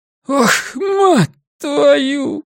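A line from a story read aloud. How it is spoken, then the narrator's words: Hoarse wheeze, bleeding nose. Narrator (Russian): просипела охранница, из носа у нее лилась кровь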